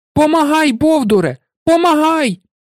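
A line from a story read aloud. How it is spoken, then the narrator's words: Furious shout. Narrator (Ukrainian): Я знавіснів з люті і закричав Перкові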